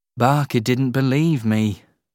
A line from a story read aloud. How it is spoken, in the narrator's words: Harry said sadly